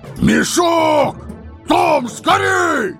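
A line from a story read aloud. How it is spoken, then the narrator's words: Two voices yelling together. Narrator (Russian): Берт и Билл в один голос завопили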